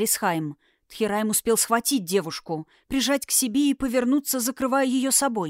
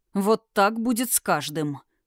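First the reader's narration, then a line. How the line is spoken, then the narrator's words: Gritted, triumphant. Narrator (Russian): процедил огненный, ощущая радость победы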